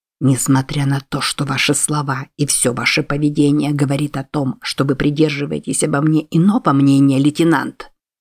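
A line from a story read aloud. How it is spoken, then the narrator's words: Barely audible. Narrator (Russian): проговорил он едва слышно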